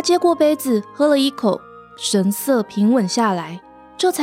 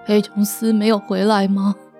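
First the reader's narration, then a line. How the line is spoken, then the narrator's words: Confused sighing mutter. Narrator (Chinese): 魔法师有点困惑的叹口气，仍在喃喃自语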